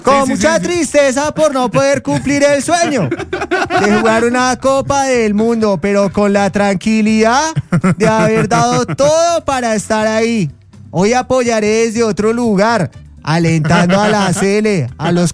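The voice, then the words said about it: Imitates another person's voice. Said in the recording (Spanish): “¿Quién quiere hacer la voz de Borre?”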